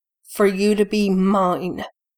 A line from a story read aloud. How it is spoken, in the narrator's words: he says, still growling